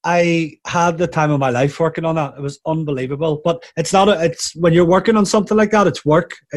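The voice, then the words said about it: Northern Irish accent. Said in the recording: “my Northern Irish accent”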